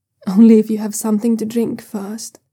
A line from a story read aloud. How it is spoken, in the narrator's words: Luo Qinggang groans softly, and then he says